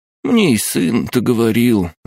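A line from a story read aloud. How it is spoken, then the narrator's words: Sighing, old woman. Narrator (Russian): вздохнула старушка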